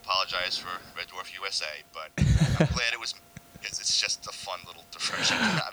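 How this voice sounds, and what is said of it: Strong New York accent. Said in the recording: “you've got a very strong, almost stereotypical New York accent”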